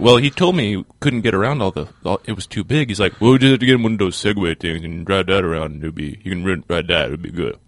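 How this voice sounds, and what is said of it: Good imitation of another man. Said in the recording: “he does a really good job ... I think that was a good imitation.”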